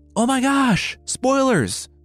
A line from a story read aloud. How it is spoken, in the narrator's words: Zeus screamed